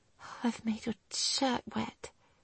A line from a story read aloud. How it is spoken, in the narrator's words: she whispered, totally embarrassed at her meltdown